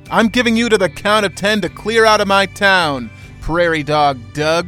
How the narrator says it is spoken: he shouts

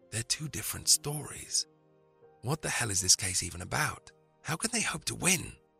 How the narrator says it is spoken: Mark Robeson, seated next to Luton, leaned across as the film ended and whispered

